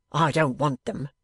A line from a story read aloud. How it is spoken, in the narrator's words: returned Bradley irritably